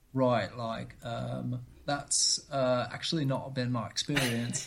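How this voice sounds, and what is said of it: Deliberately bad imitation of another person. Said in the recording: “my inaugural bad impersonation”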